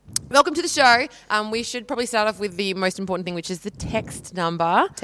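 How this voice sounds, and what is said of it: Losing voice, lower register. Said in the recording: “I think I'm losing my voice, possibly. Do I sound a bit of a lower register tonight?”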